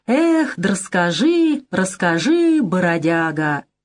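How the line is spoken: Singsong drawl. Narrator (Russian): парень в куртке хитро подмигнул остальным и протянул нараспев

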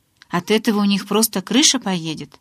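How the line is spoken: Sighing. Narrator (Russian): Эдвард вздохнул

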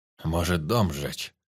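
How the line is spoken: Deep bass. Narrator (Russian): пробасил Сарафанов

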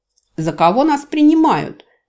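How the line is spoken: Shout in ear. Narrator (Russian): крикнул он на ухо пилота

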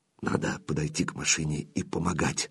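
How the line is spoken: Whispered self-persuasion. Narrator (Russian): шепотом уговаривал сам себя Зорин

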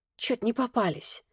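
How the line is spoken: Soundless mouthed whisper. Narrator (Russian): одними губами прошептала Ксюха

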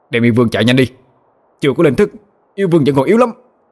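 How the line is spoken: Shouted. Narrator (Vietnamese): Bạch Kê Tinh quát lên

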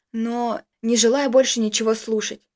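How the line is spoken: Rude, harsh. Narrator (Russian): грубо ответила Дарья

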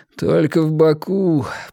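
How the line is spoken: Moan. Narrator (Russian): простонал он

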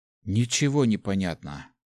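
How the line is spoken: Grumbled. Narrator (Russian): буркнул Ари

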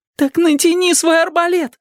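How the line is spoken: Exclaimed. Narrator (Russian): воскликнул Мэтчем

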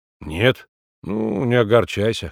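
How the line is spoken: Snorting. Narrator (Russian): хмыкнул Николай

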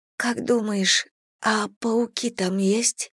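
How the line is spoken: Barely audible whisper. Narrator (Russian): едва слышно прошептала Бет

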